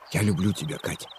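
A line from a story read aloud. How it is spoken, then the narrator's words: Whisper in the ear. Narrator (Russian): шепнул, наклонившись к ее уху, Андрей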